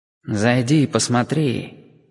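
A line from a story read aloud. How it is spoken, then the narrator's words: Whisper inside the head. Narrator (Russian): вроде бы прошептал в моей голове чей-то голос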